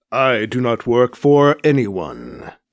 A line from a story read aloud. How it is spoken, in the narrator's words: Kit says, answering the girl's accusations in a measured tone